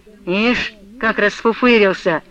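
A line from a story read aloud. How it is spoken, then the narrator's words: Grumbling. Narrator (Russian): продолжал ворчать Картуз с Голуном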